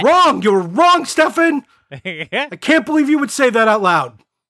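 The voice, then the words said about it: Yelling in mock outrage. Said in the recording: “we're yelling”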